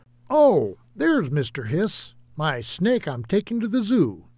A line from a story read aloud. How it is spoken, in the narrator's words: David exclaimed